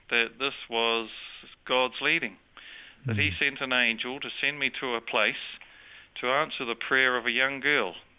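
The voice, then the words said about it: New Zealand accent. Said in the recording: “You speak with an accent ... I have a New Zealand accent ... The Australians hear an accent. The New Zealanders think you're one of them.”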